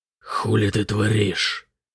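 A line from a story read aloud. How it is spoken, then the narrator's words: Hoarse question. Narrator (Russian): хрипло спросил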